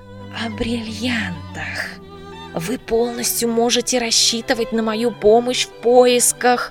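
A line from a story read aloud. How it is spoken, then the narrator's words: Barely audible whisper. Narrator (Russian): Маркиз понизил голос и чуть слышно прошептал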